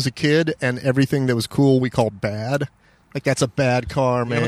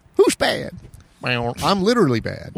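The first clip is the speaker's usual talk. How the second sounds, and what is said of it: Grandma-like voice imitating a singer. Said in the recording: “I like that grandma making apple juice voice. ... It's Michael Jackson. ... I'm not known for my impersonations.”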